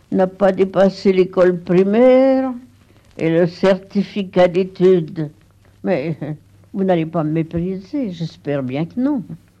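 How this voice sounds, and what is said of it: Burgundy regional French accent. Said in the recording (French): “Colette, avec cet accent de Bourgogne”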